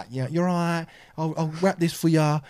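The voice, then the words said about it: Imitated Essex accent. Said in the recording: “Essex accent ... it's a nice accent when it's not too strong”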